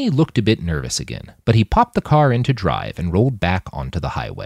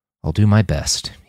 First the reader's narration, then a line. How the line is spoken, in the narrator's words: he said